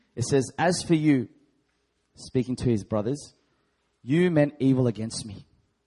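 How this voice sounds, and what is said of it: Loud reading voice. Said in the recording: “I'll read this in a loud voice.”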